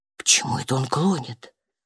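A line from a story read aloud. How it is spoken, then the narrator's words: Whispering. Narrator (Russian): прошептал терапевт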